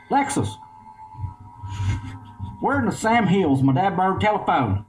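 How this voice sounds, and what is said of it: Exaggerated Eastern Kentucky accent. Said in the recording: “Creek Church Kentucky accent ... The Eastern Kentucky edition”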